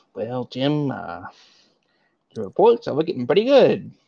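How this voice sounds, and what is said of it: Imitates another person's voice. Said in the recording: “do a Michael impression”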